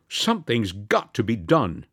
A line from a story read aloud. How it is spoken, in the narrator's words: said Eukridge firmly